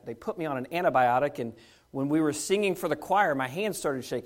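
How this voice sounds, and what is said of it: Weak voice. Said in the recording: “My voice is a little weak ... sinus infection”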